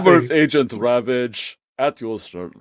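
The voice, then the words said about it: Weak attempt at Soviet-style accent. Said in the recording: “I'm not dirty commie, so I can't do the accent properly.”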